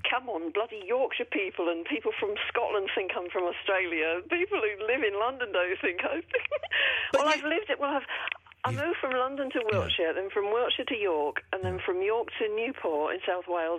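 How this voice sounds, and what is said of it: Mixed British regional accent. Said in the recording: “You've got an accent. It sounded like you've got an accent that had been kind of buried over time... I've got a bit of a mixed-up accent”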